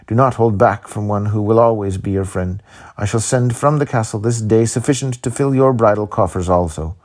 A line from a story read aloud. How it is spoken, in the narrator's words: cried